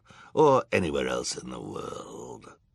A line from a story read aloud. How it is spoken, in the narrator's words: Olaf growled